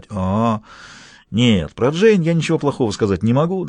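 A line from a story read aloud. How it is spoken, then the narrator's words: Embarrassed mumble. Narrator (Russian): В полном смущении Томми мог только снова пробормотать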